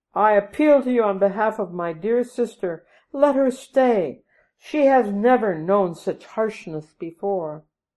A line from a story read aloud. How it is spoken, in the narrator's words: Jolly cried